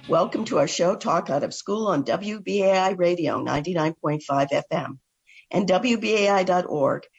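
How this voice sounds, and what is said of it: Hoarse voice. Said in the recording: “I'm recovering from a bad cold, so if I sound hoarse ... I hope I don't lose my voice.”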